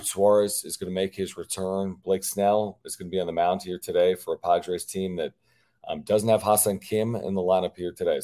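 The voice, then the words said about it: Slightly hoarse voice. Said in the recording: “Apologize for the way my voice sounds... my voice is just hoarse a little bit... a little hoarse”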